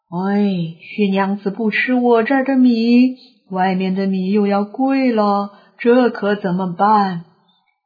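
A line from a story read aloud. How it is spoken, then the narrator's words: Sighing, lamenting. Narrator (Chinese): 两个声音唉声叹气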